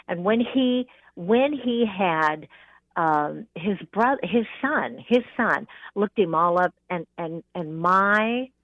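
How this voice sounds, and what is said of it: Talking too fast, rambling. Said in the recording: “I'm talking too fast, and so I'm getting rambling.”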